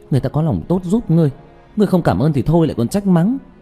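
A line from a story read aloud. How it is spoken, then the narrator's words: Angry. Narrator (Vietnamese): Tạ Vũ Tình tức giận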